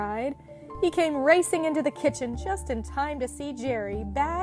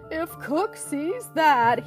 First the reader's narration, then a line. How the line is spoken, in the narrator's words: moaned